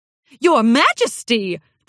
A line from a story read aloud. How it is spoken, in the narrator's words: the tour guide mare gasped